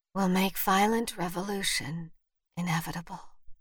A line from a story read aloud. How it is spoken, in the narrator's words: Vivian whispered